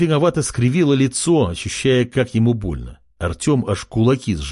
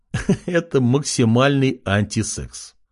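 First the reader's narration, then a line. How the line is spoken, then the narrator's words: Laughing. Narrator (Russian): рассмеялся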